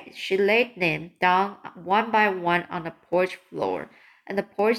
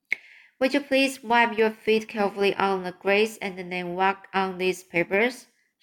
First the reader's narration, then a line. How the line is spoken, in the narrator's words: She said anxious, anxiously